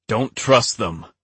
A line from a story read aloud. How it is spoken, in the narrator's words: a man shouted